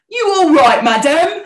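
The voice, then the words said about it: Stereotypical Cockney accent. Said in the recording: “Like the very stereotypical Cockney ... accent.”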